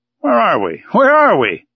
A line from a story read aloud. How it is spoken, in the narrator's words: exclaimed the Canadian